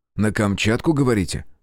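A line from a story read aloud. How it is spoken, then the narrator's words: Skeptical snort. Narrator (Russian): хмыкнул я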